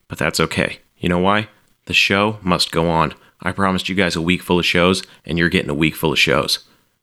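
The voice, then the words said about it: Strained, nearly lost voice. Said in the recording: “I am running on fumes. Can you hear my voice? I feel like my voice is just gone.”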